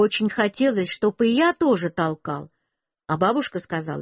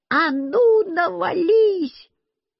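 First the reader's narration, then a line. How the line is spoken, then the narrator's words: Shouting. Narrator (Russian): я тоже кричал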